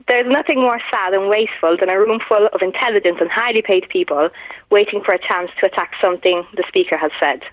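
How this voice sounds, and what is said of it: Mixed Irish and Italian accent. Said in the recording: “I think that accent is real, but I think it's slightly, with great respect, sort of mongrel ... I think it sounds like a mix between Irish and Italian.”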